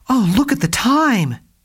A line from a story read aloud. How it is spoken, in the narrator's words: she exclaimed